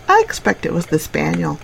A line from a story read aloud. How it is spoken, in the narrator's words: said the niece calmly